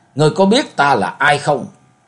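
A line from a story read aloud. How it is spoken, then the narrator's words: Roaring. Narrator (Vietnamese): Ma thượng ma gầm lên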